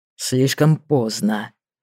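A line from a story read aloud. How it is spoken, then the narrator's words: Hollow, muffled voice. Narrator (Russian): глухо проговорил он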